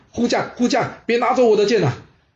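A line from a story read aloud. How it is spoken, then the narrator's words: Continuous shouting. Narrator (Chinese): 晋景公呢，还是不停的在喊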